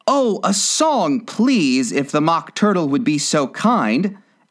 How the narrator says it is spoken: Alice replied so eagerly

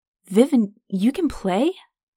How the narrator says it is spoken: The former mercenary chuckled

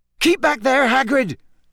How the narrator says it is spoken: yelled a wizard near the fence

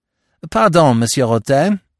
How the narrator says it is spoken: I cried

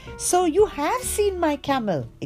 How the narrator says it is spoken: exclaimed the merchant

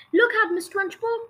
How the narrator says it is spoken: cried Lavender

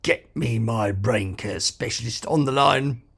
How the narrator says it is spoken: he croaked

